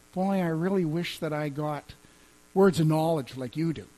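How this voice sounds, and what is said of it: Whiny put-on voice. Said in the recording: “Tried to do a little bit of a whiny voice there”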